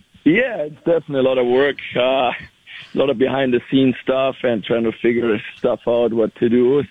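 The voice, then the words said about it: Strained, worn voice. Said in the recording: “my voice is a little bit in one here... I'm not used to yelling that much on the ice”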